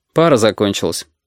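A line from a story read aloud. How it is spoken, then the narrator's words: Dry explanation. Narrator (Russian): сухо объяснил Костя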